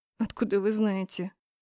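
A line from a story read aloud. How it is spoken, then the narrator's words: Quiet laugh. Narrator (Russian): Он тихо засмеялся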